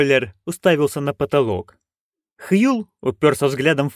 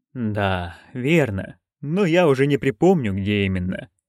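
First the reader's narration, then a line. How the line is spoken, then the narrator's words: Muttering. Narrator (Russian): пробормотал Витоллер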